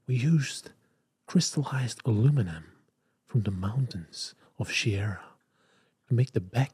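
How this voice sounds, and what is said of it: Sensual British accent, Jony Ive impression. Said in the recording (Dutch): “die rechterhand van Steve Jobs... Johnny Ive. Die had zo'n eh, Brits accent. En die ging dan... Ging die helemaal super sensueel uitspreken.”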